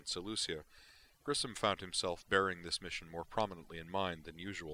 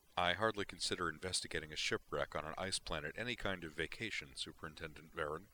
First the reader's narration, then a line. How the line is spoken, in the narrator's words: Grissom said